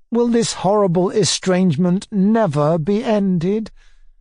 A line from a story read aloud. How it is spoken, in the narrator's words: I cried mournfully